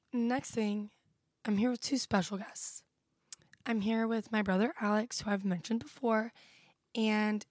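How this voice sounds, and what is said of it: Sick, losing voice, hoarse. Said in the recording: “I'm very sick. So I'm losing my voice a little bit”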